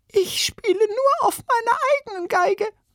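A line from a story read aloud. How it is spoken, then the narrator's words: Squeaky voice. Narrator (German): piepste eine Violinistin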